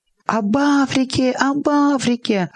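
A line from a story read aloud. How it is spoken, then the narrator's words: Joyful chirping children. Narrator (Russian): Радостно, словно стайка мелких птиц, щебетали дети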